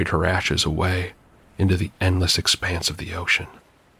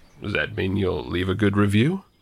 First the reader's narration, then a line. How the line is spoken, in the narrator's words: I chuckled